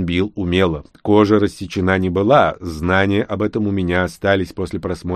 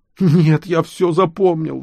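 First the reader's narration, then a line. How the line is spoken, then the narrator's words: Teenager wailing. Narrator (Russian): взвыл подросток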